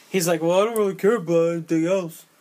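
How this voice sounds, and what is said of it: Imitates another person's voice. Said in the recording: “That's a good Stallone impression, brother. ... That was not terrible.”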